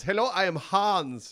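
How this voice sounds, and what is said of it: Put-on foreign accent. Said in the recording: “can you remember what the accent was? ... Was it foreign, you think?”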